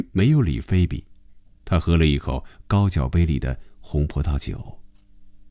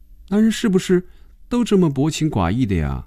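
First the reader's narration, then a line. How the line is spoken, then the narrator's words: Sighing. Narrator (Chinese): 菲比轻轻地叹了口气说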